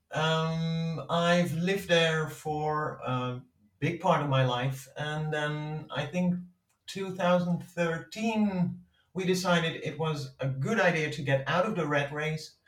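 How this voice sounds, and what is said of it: Dutch accent. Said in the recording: “I'm from Holland. You probably can tell by my terrible accent.”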